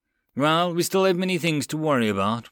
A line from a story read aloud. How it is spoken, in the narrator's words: Blake sighed